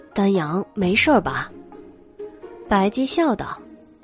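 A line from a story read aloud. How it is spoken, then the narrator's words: Quiet question. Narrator (Chinese): 袁耀小声问道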